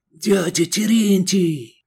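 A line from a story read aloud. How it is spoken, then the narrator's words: Joyful whisper. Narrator (Russian): радостно прошептал Сергей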